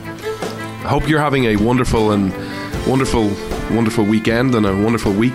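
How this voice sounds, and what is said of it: Noticeable accent. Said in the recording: “you come for the accent”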